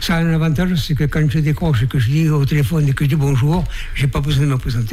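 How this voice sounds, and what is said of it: Slight Périgord regional French accent. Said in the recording (French): “j'ai pas perdu mon accent du Périgord ... c'est un petit accent du Périgord”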